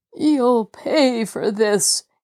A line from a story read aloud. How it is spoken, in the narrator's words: Jacob Aborn cried in a quavering voice